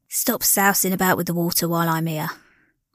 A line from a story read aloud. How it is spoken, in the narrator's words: grumbled the man